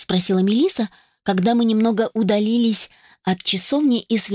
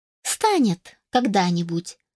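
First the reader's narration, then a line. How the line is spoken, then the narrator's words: Calm young woman. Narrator (Russian): спокойно заявила девушка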